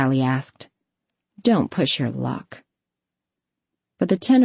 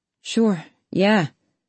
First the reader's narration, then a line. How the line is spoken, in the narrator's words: the senior guy sighed